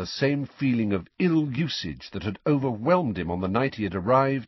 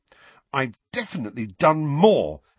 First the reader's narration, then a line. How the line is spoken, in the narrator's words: Harry thought indignantly